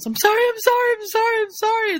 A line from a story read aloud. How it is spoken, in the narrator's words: yells